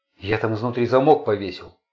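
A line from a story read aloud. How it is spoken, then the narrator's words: Frightened voice. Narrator (Russian): испуганно сказал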